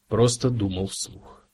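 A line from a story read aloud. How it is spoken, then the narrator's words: Mutter. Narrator (Russian): пробормотал Кразия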